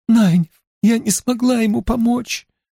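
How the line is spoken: Sobbing. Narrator (Russian): рыдала она

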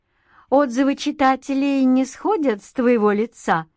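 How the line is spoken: Laughing. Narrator (Russian): рассмеялась Алина

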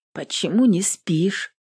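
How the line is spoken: Husky question. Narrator (Russian): хрипловато спросила Эвелин

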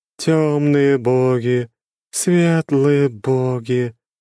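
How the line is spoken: Monotone, sad. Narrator (Russian): продолжала монотонно, печально

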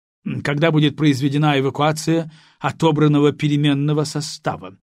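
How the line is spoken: Deliberately irritated question. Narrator (Russian): нарочито раздраженно поинтересовался

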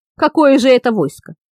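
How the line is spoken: Grumbling. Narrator (Russian): пробурчал на вале принц

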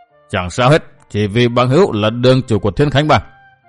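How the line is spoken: Cold. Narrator (Vietnamese): Võ sĩ lên tiếng lúc nãy lạnh lùng nói

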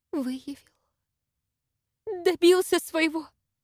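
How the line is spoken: Mournful exclamation. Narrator (Russian): скорбно воскликнула Мария Петровна

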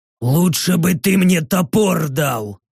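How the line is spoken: Orc's growl. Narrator (Russian): прорычал орк

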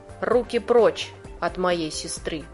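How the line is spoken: Calm. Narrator (Russian): Спокойно говорю я

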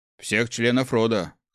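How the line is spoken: Snorting. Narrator (Russian): хмыкнул Иль

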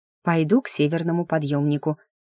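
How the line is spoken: Mumble. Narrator (Russian): пробормотала я

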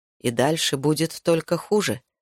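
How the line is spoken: Plain. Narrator (Russian): сказал Зерет

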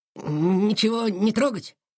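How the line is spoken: Uncertain. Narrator (Russian): спросил он неуверенно

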